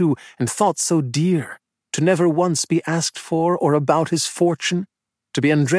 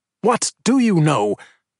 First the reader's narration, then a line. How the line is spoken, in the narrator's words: he had snapped